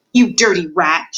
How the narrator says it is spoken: shouted the prisoner

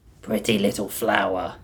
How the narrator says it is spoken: he muttered

